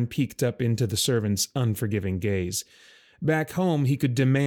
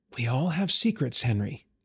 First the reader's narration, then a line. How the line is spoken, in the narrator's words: Emerus whispered